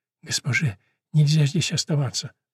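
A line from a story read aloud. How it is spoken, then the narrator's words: Whisper. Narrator (Russian): прошептала Себастьяна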